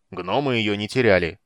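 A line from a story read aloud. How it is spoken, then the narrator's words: Irritated reply. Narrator (Russian): раздраженно ответил Арман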